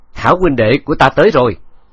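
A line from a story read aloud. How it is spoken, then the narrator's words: Delighted loud laughter. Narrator (Vietnamese): hai mắt hắn lập tức sáng rỡ, cười lớn rồi nói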